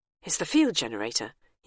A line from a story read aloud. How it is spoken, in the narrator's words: he mutters